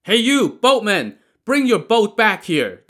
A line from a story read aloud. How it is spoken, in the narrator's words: they shouted